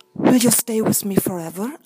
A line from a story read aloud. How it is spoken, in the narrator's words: asked the beauty